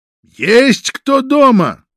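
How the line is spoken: Loud question. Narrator (Russian): громко спросил один из агентов

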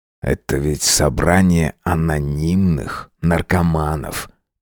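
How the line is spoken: Quiet. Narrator (Russian): тихо проговорил он

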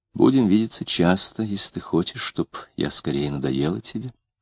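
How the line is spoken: Quiet reply. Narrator (Russian): тихонько ответила она

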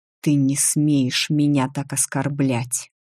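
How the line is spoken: Hissing. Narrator (Russian): прошипел

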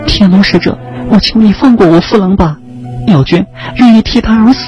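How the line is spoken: Frightened pleading. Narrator (Chinese): 妙娟生怕似乎被人夺走一般惊恐，他苦苦哀求着天龙使者手下留情

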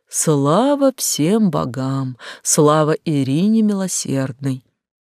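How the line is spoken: Deep sigh, relieved voice. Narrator (Russian): Фарант Кантера глубоко вздохнул и с явным облегчением в голосе сказал

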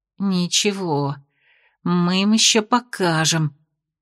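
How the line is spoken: Muttered through teeth. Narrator (Russian): процедила она себе под нос

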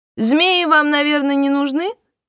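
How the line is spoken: Woman shouting. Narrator (Russian): прокричала женщина

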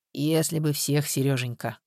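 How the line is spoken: Sighing. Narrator (Russian): вздохнул Капица

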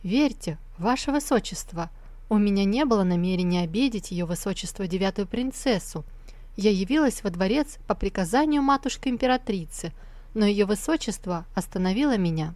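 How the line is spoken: Calm even voice. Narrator (Russian): она успокоилась и ровным голосом ответила шестому принцу

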